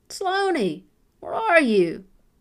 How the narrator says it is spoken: Grandpa Hal called out from the main trail

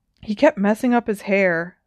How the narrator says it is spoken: said Harry in a pained voice

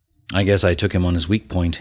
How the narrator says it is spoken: he said

